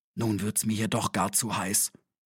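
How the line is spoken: Whispered. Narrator (German): flüsterte er

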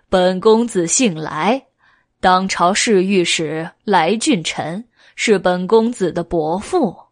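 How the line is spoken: Happy laughing. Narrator (Chinese): 恶鬼来很高兴，笑道

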